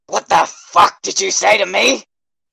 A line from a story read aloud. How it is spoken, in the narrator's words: growled dangerously